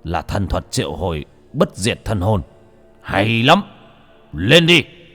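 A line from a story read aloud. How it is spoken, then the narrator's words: Shouting. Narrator (Vietnamese): Đô Lương quát lên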